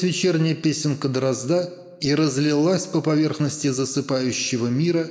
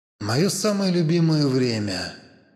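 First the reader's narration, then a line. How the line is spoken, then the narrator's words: Sighing. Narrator (Russian): вздохнул Адамс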